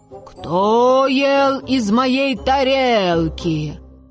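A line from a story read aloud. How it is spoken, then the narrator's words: Mother bear's soft growl. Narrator (Russian): Мама-медведица Настасья Петровна зарычала, но не так громко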